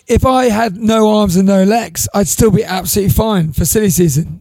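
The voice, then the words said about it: Hoarse, lost voice. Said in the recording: “if you sound like this ... I've just lost my voice. ... It's just my voice, mate. ... when I get a sore throat ... You just sound a bit under the weather.”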